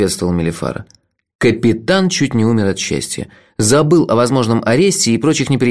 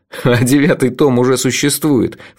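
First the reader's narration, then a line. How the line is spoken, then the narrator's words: Snort. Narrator (Russian): фыркнул я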